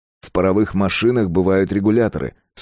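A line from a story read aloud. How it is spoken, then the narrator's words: Plain. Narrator (Russian): сказал Фредерик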